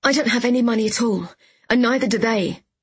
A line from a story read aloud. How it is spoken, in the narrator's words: I exclaimed